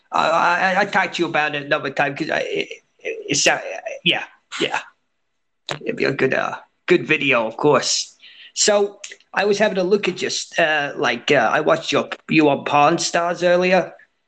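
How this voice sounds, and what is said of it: Speaker with a noticeable accent. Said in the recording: “with your accent, I wouldn't want people to misunderstand what you just said.”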